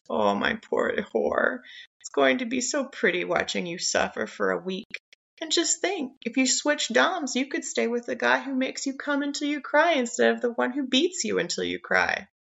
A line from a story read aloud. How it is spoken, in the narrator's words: he murmurs